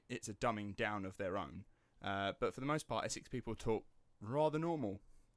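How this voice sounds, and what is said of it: Estuary English accent, East End twang. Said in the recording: “don't have a London accent. What I've got is a mixture of the two, which they call estuary ... more of an East End twang to the way they speak ... the most Cockney person they'd ever heard”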